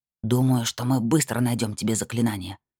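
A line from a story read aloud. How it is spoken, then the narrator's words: Quiet, sneaking. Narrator (Russian): тихо проговорил Бармасур, крадясь сквозь кусты вперед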